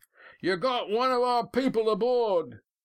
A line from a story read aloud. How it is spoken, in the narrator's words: the big man shouted